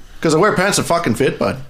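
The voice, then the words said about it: Put-on Canadian accent. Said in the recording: “I figured out the Canadian accent”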